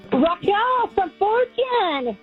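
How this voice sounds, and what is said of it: Excited, energetic voice. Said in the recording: “you sound so excited.”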